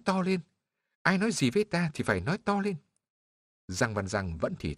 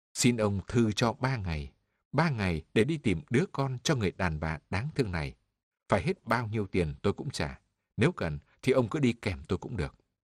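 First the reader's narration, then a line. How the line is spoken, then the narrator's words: Low, fast. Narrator (Vietnamese): Giang Văn Giang hạ giọng nói thật nhanh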